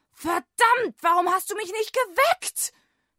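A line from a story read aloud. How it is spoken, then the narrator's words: Angry shouting. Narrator (German): schrie er seinen Wecker an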